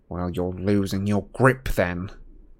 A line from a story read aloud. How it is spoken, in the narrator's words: sneered Malfoy